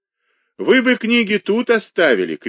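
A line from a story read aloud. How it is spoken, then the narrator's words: Shouted after someone. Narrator (Russian): крикнул ему вслед Кузнецов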